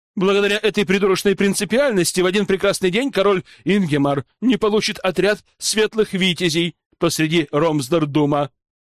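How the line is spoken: Sharp retort. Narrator (Russian): Резко откликнулся Эодор

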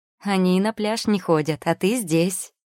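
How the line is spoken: Laughing. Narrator (Russian): рассмеялась я

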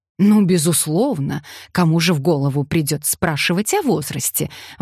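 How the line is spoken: Exclaiming. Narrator (Russian): воскликнула Джанет

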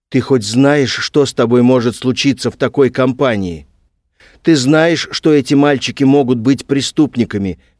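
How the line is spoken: Shouting. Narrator (Russian): кричал

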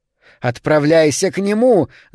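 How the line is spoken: Screaming. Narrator (Russian): закричала она

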